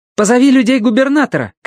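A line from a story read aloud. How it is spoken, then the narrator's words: Shout. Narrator (Russian): крикнула Сун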